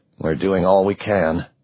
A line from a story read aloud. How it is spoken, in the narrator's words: Hardy muttered